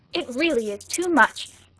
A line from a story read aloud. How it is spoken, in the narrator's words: cried Michael Arden's adversary